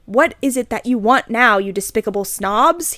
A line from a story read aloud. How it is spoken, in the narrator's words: he asked angrily